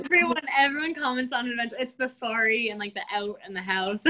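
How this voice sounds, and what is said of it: Canadian accent. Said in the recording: “I can hear a Canadian accent”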